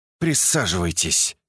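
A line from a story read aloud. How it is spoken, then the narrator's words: Through clenched teeth. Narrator (Russian): процедила сквозь зубы Акимова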